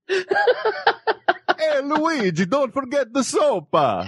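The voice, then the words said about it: Exaggerated stereotypical Italian accent. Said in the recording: “That sounds like bad Italian to me. ... I love your overtly stereotypical Italian accent. ... I go for the mild comical.”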